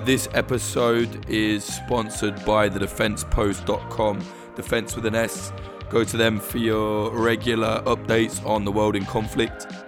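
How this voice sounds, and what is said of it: Rough, worn-out voice. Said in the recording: “forgive my voice. I sound like I've been absolutely caning it.”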